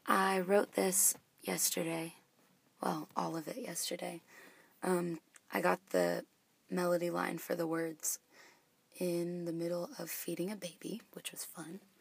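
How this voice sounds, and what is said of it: Strained, mostly lost voice. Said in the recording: “my voice is still gone, so it sounds kind of bad ... it actually does sound really bad”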